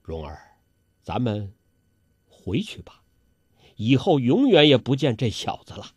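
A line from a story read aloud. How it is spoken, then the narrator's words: Soft, gentle. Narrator (Chinese): 黄药师柔声地说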